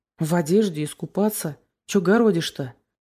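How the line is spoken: Rude. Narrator (Russian): грубо сказал Сёма

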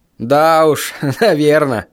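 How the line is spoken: Laughing. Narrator (Russian): рассмеялся я

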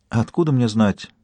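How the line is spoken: Very quiet. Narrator (Russian): Ее голос звучал очень тихо

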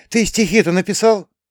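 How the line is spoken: Anxious question. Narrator (Russian): взволнованно спросила

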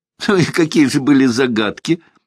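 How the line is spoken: Incredulous laughter. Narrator (Russian): смеялась недоверчивая Настасья

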